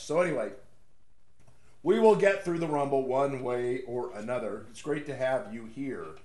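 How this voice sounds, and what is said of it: Congested voice, under the weather. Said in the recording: “I'm a little bit out of the weather today... Just a little congested, a little runny nose... I like my voice when I'm a little under the weather. My voice is much better.”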